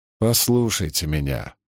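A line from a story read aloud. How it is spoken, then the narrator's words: Sighing. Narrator (Russian): вздохнул мастер Кит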